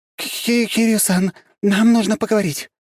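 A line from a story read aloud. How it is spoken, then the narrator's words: Forced out with effort. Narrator (Russian): наконец выдавила она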